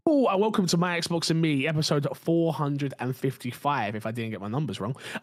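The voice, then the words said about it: Tired, raspy, sick voice. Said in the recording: “A little tired, a little bit raspy, a little bit sick”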